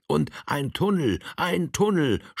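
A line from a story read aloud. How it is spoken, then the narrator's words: Group shouting after someone. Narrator (German): schrien ihm die anderen nach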